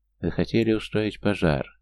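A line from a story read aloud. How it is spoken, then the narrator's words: Flat, colorless question. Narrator (Russian): все тем же бесцветным тоном спросил он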